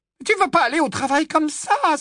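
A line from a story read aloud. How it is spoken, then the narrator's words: Exclaimed. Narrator (French): s'écria Hermione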